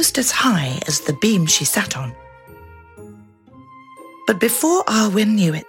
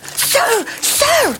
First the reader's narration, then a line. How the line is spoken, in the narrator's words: cried